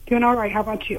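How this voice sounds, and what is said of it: Nervous-sounding voice. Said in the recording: “You sound nervous.”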